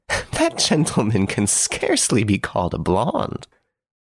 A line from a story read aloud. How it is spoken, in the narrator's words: Miss Nellie burst into laughter and exclaimed